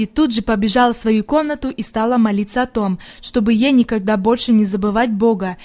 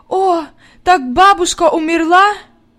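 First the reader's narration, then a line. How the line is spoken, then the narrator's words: Sobbing. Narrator (Russian): Зарыдалась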